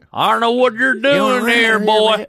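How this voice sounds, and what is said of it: Put-on American Southern accent. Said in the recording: “what if the seals all have southern accents?”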